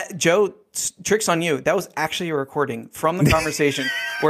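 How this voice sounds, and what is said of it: Usual voice. Nothing is said of it.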